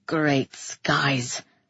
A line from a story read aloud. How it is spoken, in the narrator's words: he muttered into my hair